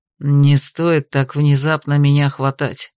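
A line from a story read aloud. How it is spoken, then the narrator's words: Growling. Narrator (Russian): прорычал Алистер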